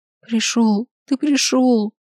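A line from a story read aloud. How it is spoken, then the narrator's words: Sobbing, breaking into tears. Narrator (Russian): всхлипнула я и все-таки начала рыдать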